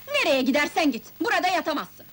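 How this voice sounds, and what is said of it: Shouting angrily. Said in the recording (Turkish): “Bağırma lan! ... Bağırma be!”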